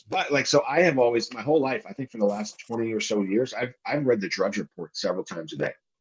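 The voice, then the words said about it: Voice going hoarse, throat clearing. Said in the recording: “pardon me, I'm losing my voice.”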